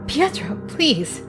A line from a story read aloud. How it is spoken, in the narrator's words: I gasped